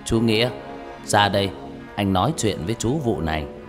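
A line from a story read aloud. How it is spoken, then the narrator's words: Deep mysterious voice. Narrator (Vietnamese): ông nói bằng giọng trầm trầm, đầy bí ẩn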